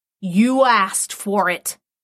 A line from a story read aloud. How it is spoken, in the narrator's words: snarled